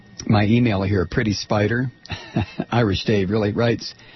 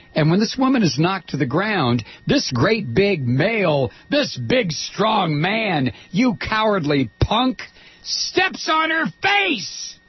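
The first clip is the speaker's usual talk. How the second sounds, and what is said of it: Angry yelling. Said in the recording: “and I'm yelling.”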